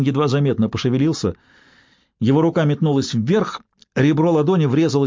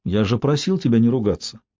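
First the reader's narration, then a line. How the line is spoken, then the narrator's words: Plain. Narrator (Russian): сказал Уин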